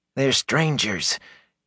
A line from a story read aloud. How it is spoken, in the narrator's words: Gelb pleaded, quietly and with an eye out for the captain